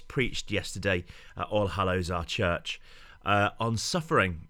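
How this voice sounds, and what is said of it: Slightly hoarse voice. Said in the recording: “that's why I sound just a little bit hoarse.”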